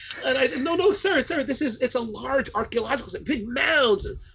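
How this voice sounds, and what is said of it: Northeastern American accent. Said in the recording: “clearly a Northeastern accent”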